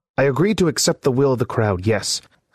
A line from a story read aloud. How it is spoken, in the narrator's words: snapped Byron